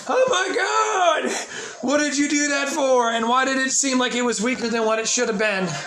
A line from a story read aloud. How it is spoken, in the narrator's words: screaming in agony